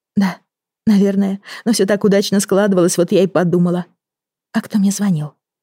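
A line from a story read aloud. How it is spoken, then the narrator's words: Frightened. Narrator (Russian): Испуганно вскинула она голову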